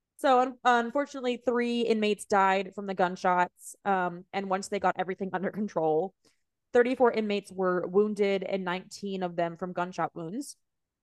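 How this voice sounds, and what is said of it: Very strong Southern US accent. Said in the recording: “the strongest Southern accent tonight, randomly, that I've ever heard in my entire life ... Stronger than Reba McEntire”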